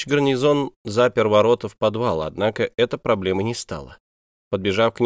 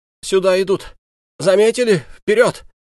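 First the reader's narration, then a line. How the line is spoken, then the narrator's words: Anxious hoarse rasp. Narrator (Russian): Капитан тревожно оглядывалась и прохрипела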